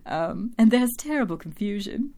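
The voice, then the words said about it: Poor imitation of a character's accent. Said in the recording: “my Drusilla accent because it sounds nothing like Drusilla”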